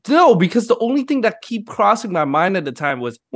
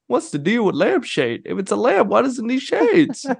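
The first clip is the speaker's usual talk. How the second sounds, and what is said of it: Bad comedian impression. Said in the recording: “fantastically bad Jerry Seinfeld impression. ... that is so bad. We still knew who it was.”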